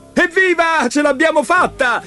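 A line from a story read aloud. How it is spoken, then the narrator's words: Shouted. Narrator (Italian): gridò Leo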